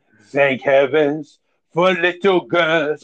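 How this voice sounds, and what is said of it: Imitates another person's voice. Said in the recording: “He should have a Marie Chevalier accent.”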